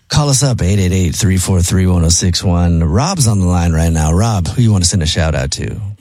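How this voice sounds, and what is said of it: Sexy late-night radio DJ voice. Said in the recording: “sexy DJ voice”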